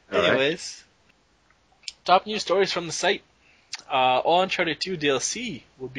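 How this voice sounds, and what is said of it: Sick-sounding, unenthusiastic voice. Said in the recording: “I'm sick. That's why I apologize for my voice and my lack of enthusiasm”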